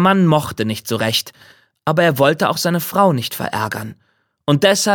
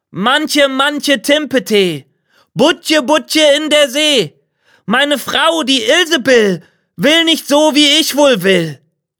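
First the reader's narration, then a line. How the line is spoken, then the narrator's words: Calling out. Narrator (German): rief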